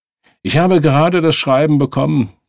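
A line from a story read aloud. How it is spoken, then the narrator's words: Called out. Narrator (German): rief einer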